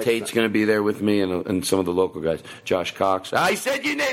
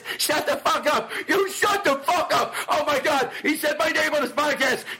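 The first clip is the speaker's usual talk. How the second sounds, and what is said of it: Excited imitation of another person. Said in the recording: “That's me imitating him.”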